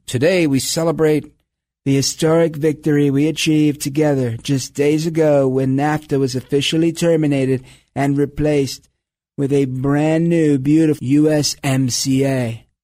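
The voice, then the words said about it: Donald Trump impression. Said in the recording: “still working on my Trump impression”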